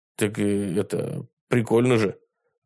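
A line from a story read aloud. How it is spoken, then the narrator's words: Muttering. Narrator (Russian): пробормотал Костя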